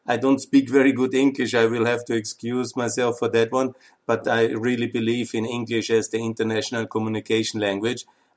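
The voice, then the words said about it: Austrian-accented English. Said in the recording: “excuse me for my Austrian accent. That's something I'm born with”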